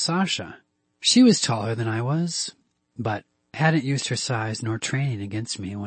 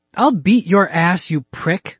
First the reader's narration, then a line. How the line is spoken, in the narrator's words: Jo yelled